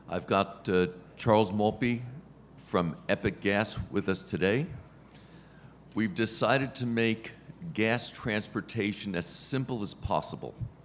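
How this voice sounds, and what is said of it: Hoarse, strained voice. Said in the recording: “I'm losing my voice a little bit.”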